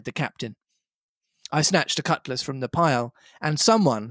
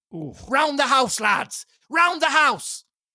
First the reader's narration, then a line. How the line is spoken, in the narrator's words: cried the captain, and even in the hurly-burly I perceived a change in his voice